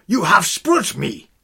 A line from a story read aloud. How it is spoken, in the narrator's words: cried, his blue eyes blazing